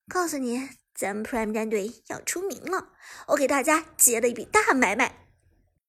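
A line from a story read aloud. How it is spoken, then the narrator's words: Smiling. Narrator (Chinese): 杜鹃微笑道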